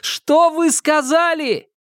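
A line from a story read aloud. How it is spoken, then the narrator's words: Dry sinister creaky old voice. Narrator (Russian): Старик заговорил сухим, зловещим, скрипучим голосом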